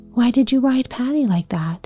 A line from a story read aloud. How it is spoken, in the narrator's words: breathed a long breath